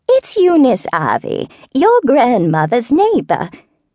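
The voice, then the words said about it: Wavering high falsetto voice. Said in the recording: “said a wavering falsetto”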